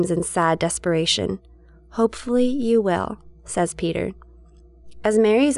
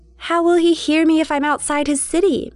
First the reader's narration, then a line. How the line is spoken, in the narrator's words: Mary shouts